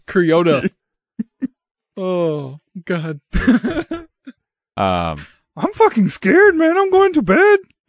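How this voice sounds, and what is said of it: Character voice mixing Yoda and Kermit. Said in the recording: “got like a fucking Cheech Marin ... doing a Yoda impression while trying to be Kermit ... He's doing a Kermit impression”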